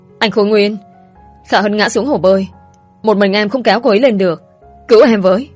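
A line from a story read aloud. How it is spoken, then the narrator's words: Loud shout. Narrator (Vietnamese): Thảo My đã hét lớn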